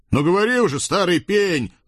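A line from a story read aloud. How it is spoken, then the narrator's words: Barked in chorus. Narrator (Russian): казаки рявкнули хором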